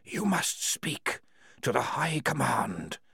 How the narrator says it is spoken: whispered the walls

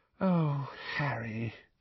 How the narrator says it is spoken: she said sadly

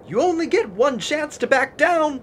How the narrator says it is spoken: Lexar called out

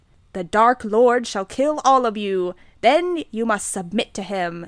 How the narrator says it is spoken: Snape ejaculated menacingly

